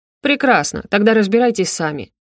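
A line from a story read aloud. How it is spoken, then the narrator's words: Dismissive snort. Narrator (Russian): хмыкнул он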